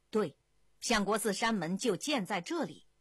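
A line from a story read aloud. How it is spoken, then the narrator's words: Loud, inspired. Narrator (Chinese): 不由灵机一动，大声说道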